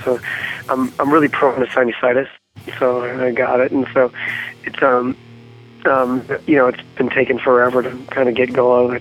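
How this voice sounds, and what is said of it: Slightly raspy voice. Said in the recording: “my voice is a little, you know, ... a little raspy.”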